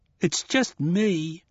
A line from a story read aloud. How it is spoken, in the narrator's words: was sobbing